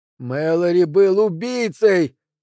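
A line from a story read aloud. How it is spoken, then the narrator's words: Shouted. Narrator (Russian): кричал Пол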